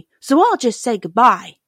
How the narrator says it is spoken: exclaimed Dorothy

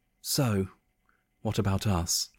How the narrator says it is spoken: Jessica asked, looking at Tom nervously

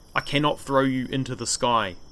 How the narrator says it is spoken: Māui said

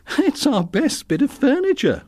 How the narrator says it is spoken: laughed Teresa

